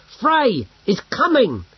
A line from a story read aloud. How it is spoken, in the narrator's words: shouted louder